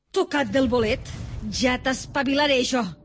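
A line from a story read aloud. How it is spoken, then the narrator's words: Woman shouting angrily. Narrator (Catalan): cridava la dona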